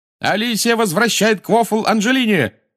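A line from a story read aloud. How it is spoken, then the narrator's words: Shout. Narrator (Russian): закричал Ли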